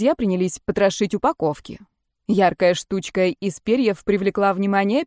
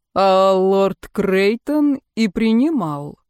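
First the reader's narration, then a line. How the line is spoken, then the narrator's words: Slow. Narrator (Russian): медленно произнес он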